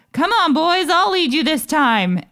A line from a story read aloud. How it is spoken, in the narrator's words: called out